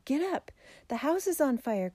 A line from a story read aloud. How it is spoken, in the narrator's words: cried Jerry